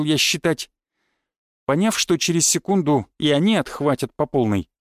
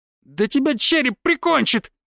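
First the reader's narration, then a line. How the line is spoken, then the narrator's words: Shriek from the dark. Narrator (Russian): взвизгнул кто-то из темноты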